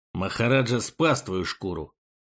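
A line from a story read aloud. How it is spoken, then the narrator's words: Low voice through teeth. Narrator (Russian): процедил он вполголоса, так как Арбалун держался в нескольких шагах позади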